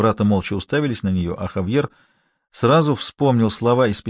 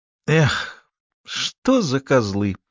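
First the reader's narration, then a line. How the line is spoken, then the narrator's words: Exclaimed, exaggerated Andalusian accent. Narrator (Russian): воскликнула с мерзко утрированным андалузским акцентом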